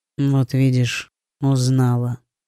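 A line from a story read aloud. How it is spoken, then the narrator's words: Unusually soft voice. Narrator (Russian): проговорил принц непривычно мягким голосом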